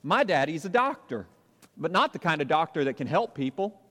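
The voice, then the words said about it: Imitated cute Southern accent. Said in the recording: “I'm going to try to do it because he's got a really cute southern accent”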